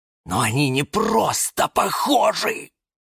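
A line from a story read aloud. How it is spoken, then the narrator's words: Hissed. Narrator (Russian): прошипел кактус Кирилл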